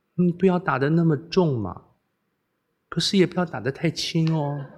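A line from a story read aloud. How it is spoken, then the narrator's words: Soft, gentle voice. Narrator (Chinese): 公主柔声说道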